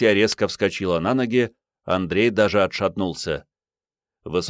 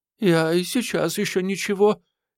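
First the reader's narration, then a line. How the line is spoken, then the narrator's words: Frightened woman. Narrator (Russian): испуганно сказала дама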